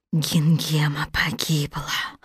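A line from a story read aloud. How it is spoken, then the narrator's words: Wicked witch whispering. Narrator (Russian): прошептала злая волшебница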